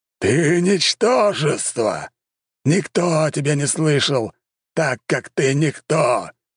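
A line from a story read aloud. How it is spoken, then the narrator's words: Roar. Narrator (Russian): Взревел он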